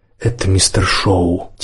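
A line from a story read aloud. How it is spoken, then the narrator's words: Quiet. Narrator (Russian): тихо сказал Йоги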